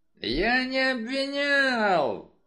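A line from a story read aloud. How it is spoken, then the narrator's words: Yell. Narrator (Russian): заорал инспектор Крэмер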